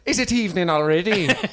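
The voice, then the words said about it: Put-on accent. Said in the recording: “Keep doing the accent. This is good for you.”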